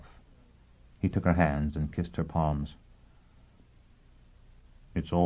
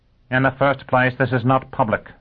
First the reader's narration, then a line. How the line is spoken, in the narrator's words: Dagenham snapped